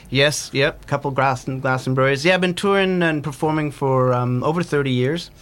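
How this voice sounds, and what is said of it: North American accent. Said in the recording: “you might sense a North American accent. I grew up in New Jersey”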